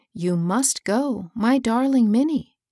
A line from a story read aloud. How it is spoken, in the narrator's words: she said